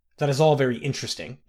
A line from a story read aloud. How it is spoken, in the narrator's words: the king barked